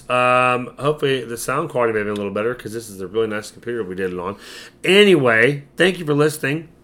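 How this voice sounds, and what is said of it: Hoarse, strained, worn-out voice. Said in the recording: “I can't do it. My voice is stretched. ... I told you it's bad. ... sounds terrible. ... My voice is trashed. It's horrible. Sorry for the shitty voice.”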